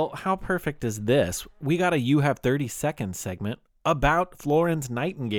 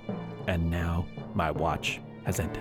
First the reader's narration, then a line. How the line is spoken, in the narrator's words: muttered